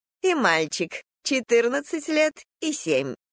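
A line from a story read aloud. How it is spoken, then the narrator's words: Laughing. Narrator (Russian): рассмеялась Снегуркина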